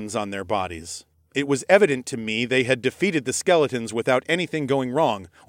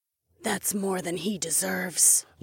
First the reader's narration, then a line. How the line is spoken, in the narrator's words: Laika muttered back